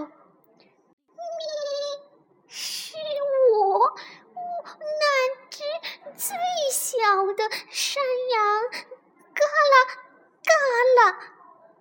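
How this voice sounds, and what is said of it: Small goat voice answering softly. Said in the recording (Chinese): “小山羊嘎啦嘎啦， 小声的回答说”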